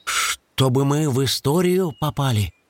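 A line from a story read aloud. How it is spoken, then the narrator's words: Timid hedgehog. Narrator (Russian): робко уточнил ежик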